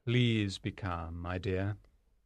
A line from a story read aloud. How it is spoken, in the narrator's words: the banker said softly